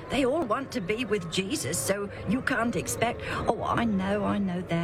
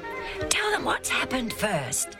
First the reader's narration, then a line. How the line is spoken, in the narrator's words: Andronicus whispered to Junius